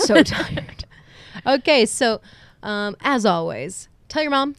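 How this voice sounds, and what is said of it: Usual voice. Nothing is said of it.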